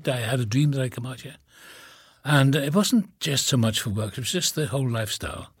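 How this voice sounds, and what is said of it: Slight Welsh accent. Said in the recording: “you don't have quite the Cali accent. You still have a bit of your Welsh accent.”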